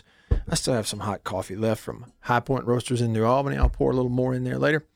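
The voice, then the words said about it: Weak, slightly hoarse voice. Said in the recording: “I got a weak voice, like I'm getting hoarse.”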